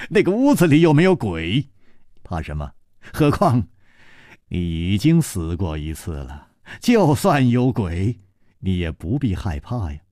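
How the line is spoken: Laughing. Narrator (Chinese): 楚留香笑着说

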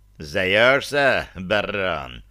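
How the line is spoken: Venomous, through clenched teeth. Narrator (Russian): ядовито процедил северянин

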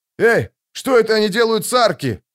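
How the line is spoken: Shouted. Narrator (Russian): крикнул он

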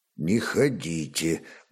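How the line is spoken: Dull, muffled remark. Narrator (Russian): глухо обронил Ольг

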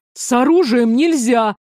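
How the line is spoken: Somewhat hysterical shout. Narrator (Russian): несколько истерично выкрикнул Дзьер

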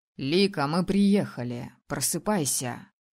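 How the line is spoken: Hoarse, into ear. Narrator (Russian): прохрипел магистр мне на ухо

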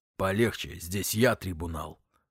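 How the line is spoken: Dwarf's growl. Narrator (Russian): прорычал карлик

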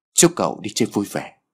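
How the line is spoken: Smiling. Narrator (Vietnamese): người đàn ông này cười và nói

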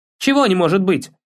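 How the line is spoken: Snapping retort. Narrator (Russian): огрызнулся

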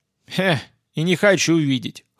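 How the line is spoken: Snort. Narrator (Russian): хмыкнул я

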